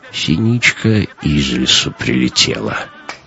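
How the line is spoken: Whispered in ear. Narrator (Russian): Петр шепнул ей в ухо

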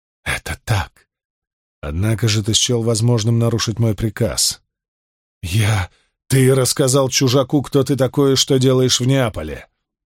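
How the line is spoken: Through gritted teeth. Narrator (Russian): процедил Спартак

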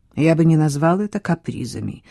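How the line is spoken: Mumbled. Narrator (Russian): пробормотал Хьюг

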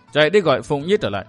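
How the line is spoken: Stern. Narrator (Vietnamese): Kim Xoa giáo chủ nghiêm giọng thốt

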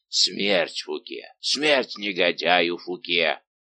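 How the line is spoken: Growling. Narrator (Russian): Он только рычал

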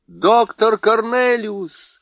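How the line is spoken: Joyful shout. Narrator (Russian): радостно закричал Каспиан

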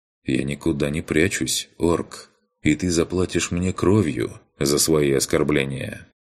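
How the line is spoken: Calm reply. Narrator (Russian): Я также спокойно ответил

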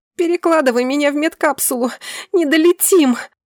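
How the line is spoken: Howl. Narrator (Russian): Взвыла

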